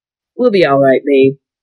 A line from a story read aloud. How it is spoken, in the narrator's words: said